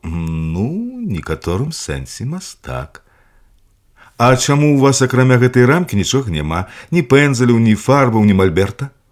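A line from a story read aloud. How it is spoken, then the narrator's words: Girl asking again. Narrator (Belarusian): Зноў спыталася дзяўчынка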